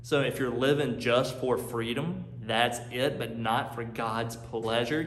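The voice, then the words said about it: North Carolina Southern accent. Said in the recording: “I'm from North Carolina. You hear my accent now”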